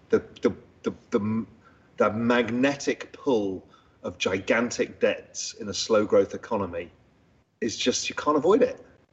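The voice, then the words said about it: British accent. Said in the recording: “It's just a British accent.”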